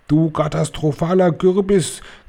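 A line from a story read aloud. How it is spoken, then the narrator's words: Shrieking witch. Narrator (German): kreischte die Hoch- und Großmeisterhexe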